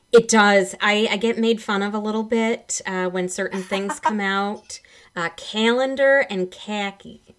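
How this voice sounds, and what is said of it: Michigan accent. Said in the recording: “You'll probably still hear some of that Michigan accent in me ... The accent lingers, sure. ... people say I accentuate certain syllables”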